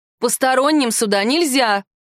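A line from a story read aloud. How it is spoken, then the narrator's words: Shouted. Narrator (Russian): крикнула в торговый зал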